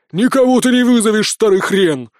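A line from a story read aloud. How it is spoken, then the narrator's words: Furious girl shouting. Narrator (Russian): разъяренно крикнула зеленокожая девушка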